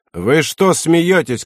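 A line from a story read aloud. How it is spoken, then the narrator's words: Shout. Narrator (Russian): крикнул он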